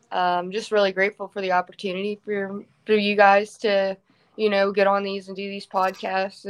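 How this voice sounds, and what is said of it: Central Pennsylvania accent. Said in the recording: “Central PA accent.”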